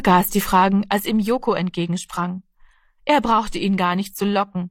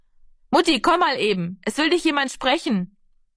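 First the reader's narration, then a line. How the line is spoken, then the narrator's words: Called out. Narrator (German): rief Heidemarie von der Hoftür aus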